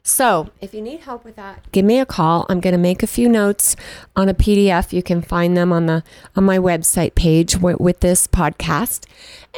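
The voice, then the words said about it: Hoarse, strained voice. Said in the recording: “my voice is starting to give out here. I guess I've got some allergies ... I've got a little frog in my throat.”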